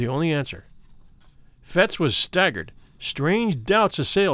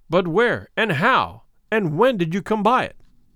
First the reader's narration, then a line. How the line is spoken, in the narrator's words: cried the other